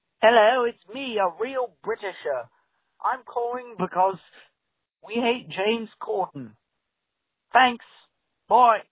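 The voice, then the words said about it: Fake British accent. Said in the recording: “this is someone who is not British doing a British accent”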